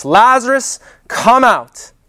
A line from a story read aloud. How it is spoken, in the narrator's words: he cried out with a loud voice